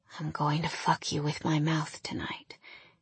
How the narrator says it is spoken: he whispered

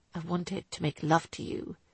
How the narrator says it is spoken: he corrected softly

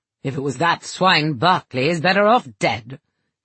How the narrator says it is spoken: he snarled at Carrington

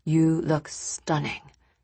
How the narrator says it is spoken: Nick said, almost in a whisper

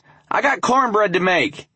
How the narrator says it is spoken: she yelled loudly

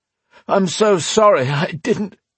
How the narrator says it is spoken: he cut off, grunting

